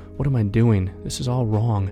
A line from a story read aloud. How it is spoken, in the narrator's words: shaking with cold and fear and shame, he would whisper